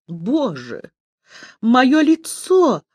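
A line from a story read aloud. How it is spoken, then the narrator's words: Sobbing. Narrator (Russian): всхлипнула Зюка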